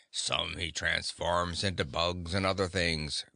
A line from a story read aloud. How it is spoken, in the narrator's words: growled the bear's head